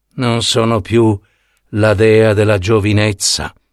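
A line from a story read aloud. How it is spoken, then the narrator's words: Murmured. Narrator (Italian): mormorò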